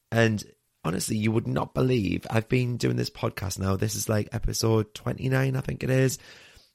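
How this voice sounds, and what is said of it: Raspy voice from sore throat. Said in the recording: “You can probably hear from my raspy undertones that I've got a sore throat”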